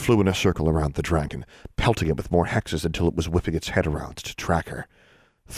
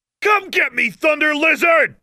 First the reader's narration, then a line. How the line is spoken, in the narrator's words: yelled